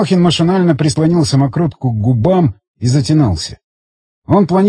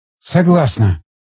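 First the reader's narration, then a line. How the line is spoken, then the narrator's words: Relieved eager exhale. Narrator (Russian): выдохнула Гжель, которая словно ждала этих слов, точно манны небесной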